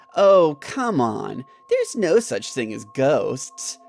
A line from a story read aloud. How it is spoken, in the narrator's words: Jim replied in a mocking tone